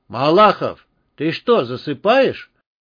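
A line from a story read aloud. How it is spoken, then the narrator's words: Booming voice. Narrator (Russian): Прогремел голос Степанова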